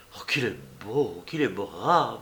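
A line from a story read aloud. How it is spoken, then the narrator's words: Female murmur. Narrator (French): murmurait-elle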